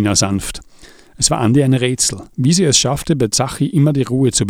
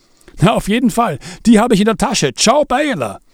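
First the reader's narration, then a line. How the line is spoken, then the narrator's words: Called out while leaving. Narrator (German): rief Zachi im Weggehen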